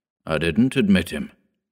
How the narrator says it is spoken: grumbled the old man

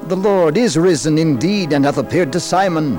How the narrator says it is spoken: The apostles with gladness exclaimed excitedly

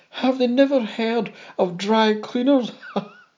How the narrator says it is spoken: another add with a laugh

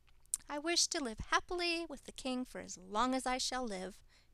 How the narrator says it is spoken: Henrietta exclaimed

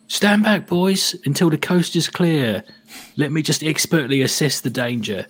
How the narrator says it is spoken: as I gingerly approach the chest and start to see the riches, I yell back

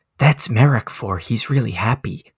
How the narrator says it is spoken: whisper

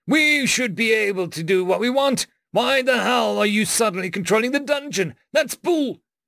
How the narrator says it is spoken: He choked

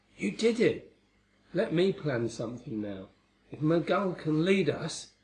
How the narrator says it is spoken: I murmured to Mary

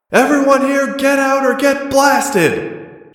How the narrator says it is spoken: She shouted down into the hangar

